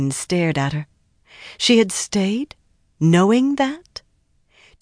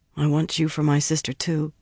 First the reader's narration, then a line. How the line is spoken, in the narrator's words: she mumbled